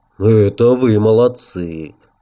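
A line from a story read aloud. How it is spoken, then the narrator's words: Sigh. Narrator (Russian): Гард вздохнул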